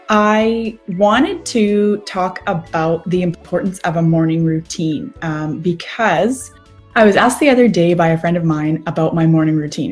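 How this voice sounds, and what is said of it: Hoarse voice that may crack. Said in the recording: “My husband was fighting laryngitis, and now I think I'm fighting it. So excuse me if my voice cracks a little bit.”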